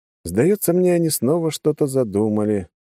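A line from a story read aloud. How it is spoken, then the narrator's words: Heavy sigh. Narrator (Russian): тяжело вздохнул я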